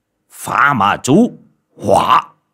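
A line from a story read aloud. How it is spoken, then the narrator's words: Man shouting. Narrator (Vietnamese): Người đàn ông kia quát lên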